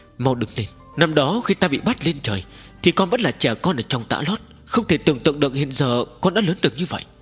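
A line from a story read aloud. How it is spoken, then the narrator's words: Tearful, trembling emotion. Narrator (Vietnamese): Vân Hoa tiên tử kích động không thôi, đôi mắt đẹp chảy lệ như dòng suối, ôm hắn khóc giống một hồi lâu mới run rẩy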